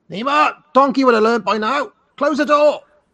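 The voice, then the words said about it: Loud shouty impression of father. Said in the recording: “My dad shouts a lot. He's very loud. ... Shouty dad”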